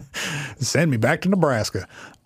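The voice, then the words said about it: Put-on southern accent. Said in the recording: “with a southern accent.”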